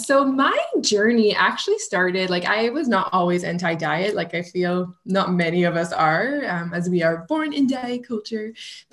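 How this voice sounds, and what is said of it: French Canadian accent. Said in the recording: “I'm a French Canadian, so you may hear it through my accent”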